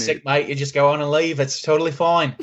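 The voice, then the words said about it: Bad put-on Australian accent. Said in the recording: “It's not really a New Zealand accent. It's just more of like an Australian accent that's very bad.”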